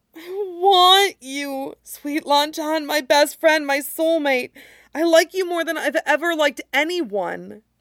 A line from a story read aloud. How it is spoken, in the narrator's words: Wei Wuxian gasps